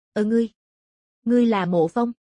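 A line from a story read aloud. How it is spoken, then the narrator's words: Stunned, trembling. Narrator (Vietnamese): Đột nhiên, hắn sững người, run rẩy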